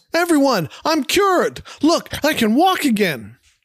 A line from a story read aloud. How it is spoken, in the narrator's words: The skipper yells